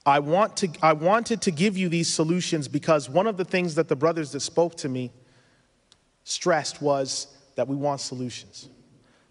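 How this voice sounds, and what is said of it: Speaks with a strong accent. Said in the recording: “I have tried to lighten my accent. It's gotten worse in the past few years.”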